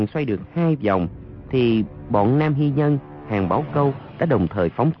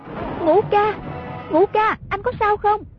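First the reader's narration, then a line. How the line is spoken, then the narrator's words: Repeated calling out. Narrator (Vietnamese): miệng cứ kêu lên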